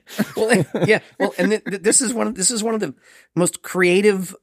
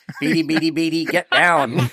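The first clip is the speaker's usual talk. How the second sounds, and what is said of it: Robot voice impression, Twiki. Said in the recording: “you do a good impersonation ... The robot from Buck Rogers.”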